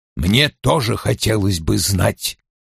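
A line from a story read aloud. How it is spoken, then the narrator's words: Grumbled. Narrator (Russian): проворчал Вульф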